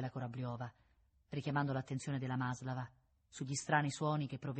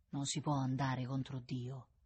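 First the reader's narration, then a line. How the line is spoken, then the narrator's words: Sighing. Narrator (Italian): disse con un sospiro la Corabliova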